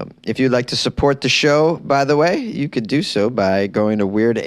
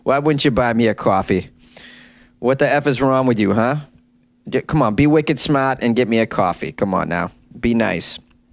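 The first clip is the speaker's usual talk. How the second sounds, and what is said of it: Boston accent. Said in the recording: “Oh, my Boston accent slipped out.”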